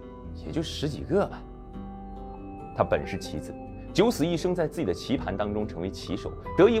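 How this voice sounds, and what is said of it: Usual voice. Nothing is said of it.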